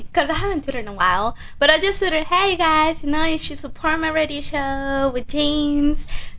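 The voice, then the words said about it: Speaks with an attractive accent. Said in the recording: “Isn't her accent so fucking sexy?... It's absolutely beautiful”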